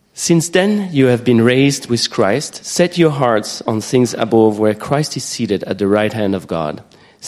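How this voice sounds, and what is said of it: French accent in English. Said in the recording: “I have a French accent ... Right, there's no H ... You get the French accent this morning”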